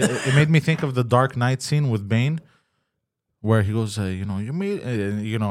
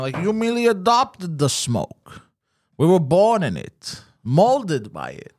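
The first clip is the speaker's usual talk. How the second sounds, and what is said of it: Bane villain voice impression. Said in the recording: “not a bad Bane impression”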